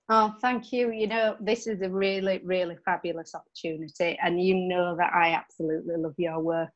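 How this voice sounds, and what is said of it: Broad Yorkshire accent. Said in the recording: “a broad Yorkshire voice ... I love your accent”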